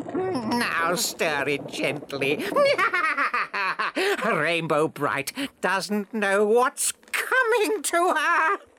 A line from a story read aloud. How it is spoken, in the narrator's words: with a crafty laugh told Lurky